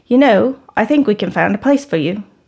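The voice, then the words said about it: Poor imitation British accent. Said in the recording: “he's British. Sorry for my terrible British accent.”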